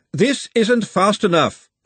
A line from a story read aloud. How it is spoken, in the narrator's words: Glenda shouted